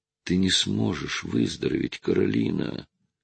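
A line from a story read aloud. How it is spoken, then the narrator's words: Hoarse voice over phone. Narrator (Russian): прохрипел голос с другого конца провода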